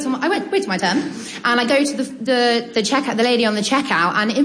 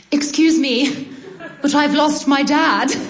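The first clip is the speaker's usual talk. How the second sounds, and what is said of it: Very posh British accent. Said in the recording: “in probably in like poshest British accent, more posh than I've ever used in my life”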